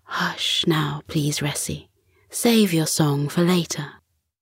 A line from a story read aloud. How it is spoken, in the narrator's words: said softly